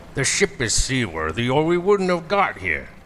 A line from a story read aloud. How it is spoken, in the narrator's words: the captain barks